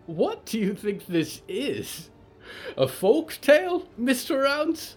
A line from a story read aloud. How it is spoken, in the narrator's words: Polly said, half sobbing from the pain